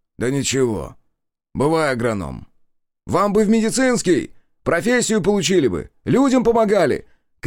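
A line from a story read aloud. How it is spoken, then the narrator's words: Shouted after someone. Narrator (Russian): крикнул в спину Семен Григорьевич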